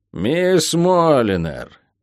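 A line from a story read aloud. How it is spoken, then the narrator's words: Hoarse voice from above. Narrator (Russian): раздалось сверху хриплое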